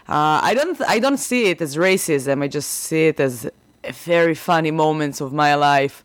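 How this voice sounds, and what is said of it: Non-native English accent. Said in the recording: “my accent ... why are you judging me because of my accent”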